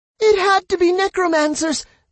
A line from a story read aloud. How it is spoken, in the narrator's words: the crying lady screamed